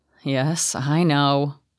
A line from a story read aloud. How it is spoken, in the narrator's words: Alexander sighed